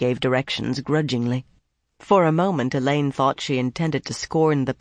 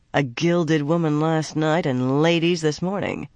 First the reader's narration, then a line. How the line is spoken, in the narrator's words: The girl mumbled something sour